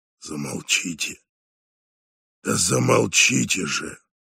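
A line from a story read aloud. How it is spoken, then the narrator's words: Hoarse speech. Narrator (Russian): сказал хрипло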